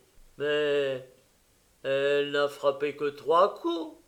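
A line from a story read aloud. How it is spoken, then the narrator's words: Indignant cry. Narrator (French): s'écria Georges d'un ton indigné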